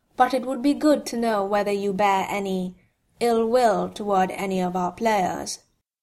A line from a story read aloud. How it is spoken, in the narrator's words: Monsieur Beliveau said calmly